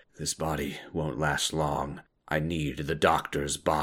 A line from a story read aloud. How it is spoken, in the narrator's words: he mumbles to himself